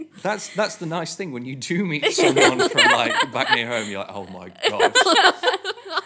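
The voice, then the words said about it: Regional northern English accent. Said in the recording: “I say Book, Luke and Cook is part of my accent ... People have thought I'm Scottish ... People have asked me if I'm a Scouser”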